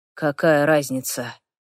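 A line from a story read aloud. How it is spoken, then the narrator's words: Quiet. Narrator (Russian): говорит тихо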